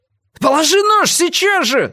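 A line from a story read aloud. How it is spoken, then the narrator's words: Yelled. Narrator (Russian): завопил Адам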